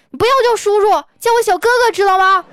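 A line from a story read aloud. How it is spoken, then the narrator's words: Angry roar. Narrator (Chinese): 我很生气啊，我就对那小男孩一声吼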